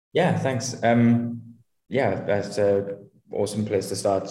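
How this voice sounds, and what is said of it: Welsh accent. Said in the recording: “your accent gives us a little bit of a prelude to that ... I'm originally from Wales in the UK”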